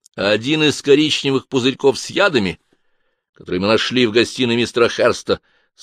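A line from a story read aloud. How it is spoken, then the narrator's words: Plain. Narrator (Russian): сказал он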